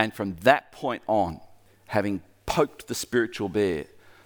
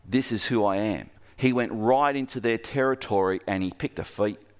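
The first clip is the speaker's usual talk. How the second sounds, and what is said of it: Braveheart-style put-on accent. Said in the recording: “That's Braveheart if you didn't pick the accent. I nailed it.”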